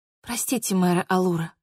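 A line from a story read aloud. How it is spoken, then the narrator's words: Mumbled. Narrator (Russian): пробормотала я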